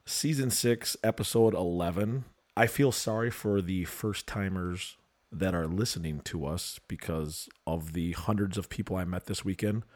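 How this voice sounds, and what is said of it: Froggy, hoarse, tired voice. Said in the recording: “It's like there's a frog living in there... You got a froggy voice... You sound awfully tired, man... what the fuck is wrong with this guy's voice?”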